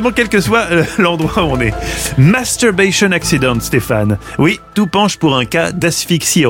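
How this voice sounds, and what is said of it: Usual voice. Nothing is said of it.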